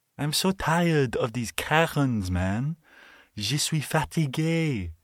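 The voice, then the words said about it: Bad fake French accent. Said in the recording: “the worst French accent ever”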